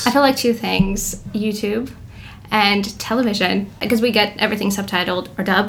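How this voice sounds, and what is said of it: American accent with slight foreign traces. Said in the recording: “So how is your accent American? ... I hear you're from somewhere else every once in a while ... Your accent's amazing.”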